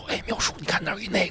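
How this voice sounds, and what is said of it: Quiet whispered speech. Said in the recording (Chinese): “好像我们都不自然的开始小声说话，就都这么说 ... 怕人听见你声音”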